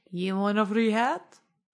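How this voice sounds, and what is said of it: Impression of the hat-offering stranger. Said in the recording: “That's a very good impression.”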